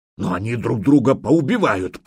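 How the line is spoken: Growled. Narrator (Russian): прорычал Фарлав

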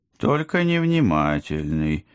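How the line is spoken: Grumbling mutter. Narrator (Russian): пробурчал кот

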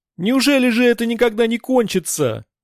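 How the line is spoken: Shouting to no one. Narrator (Russian): неизвестно к кому обращаясь, закричала Альтинка

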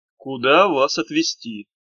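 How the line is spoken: Weary. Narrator (Russian): повторил Хаврон устало

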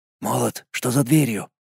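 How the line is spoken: Whispered. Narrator (Russian): прошептал я

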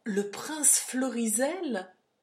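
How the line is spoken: Astonished exclamation. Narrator (French): s'écria Brackenbury, stupéfait

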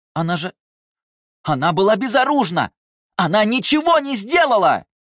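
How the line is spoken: Screaming. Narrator (Russian): закричала Талия

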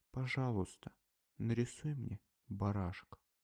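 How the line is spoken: Quiet, very serious request. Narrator (Russian): он опять попросил тихо и очень серьезно

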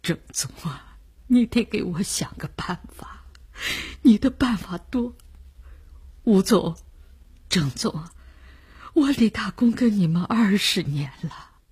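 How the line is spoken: Despairing, crying. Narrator (Chinese): 李大公……郑百祥的沉默预示了事情已无可救药，于是他哭了起来

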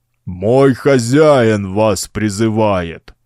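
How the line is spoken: Roaring giant. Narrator (Russian): проревел колосс

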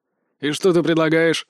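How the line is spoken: Older man's snort. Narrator (Russian): хмыкнул клерк, что постарше

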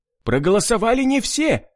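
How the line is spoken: Shout. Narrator (Russian): выкрикнул кто-то из них

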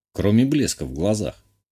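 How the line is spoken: Snort. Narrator (Russian): хмыкнул я

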